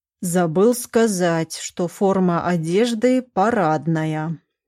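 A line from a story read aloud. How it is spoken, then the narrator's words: Drawl into phone. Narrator (Russian): протянул он в трубку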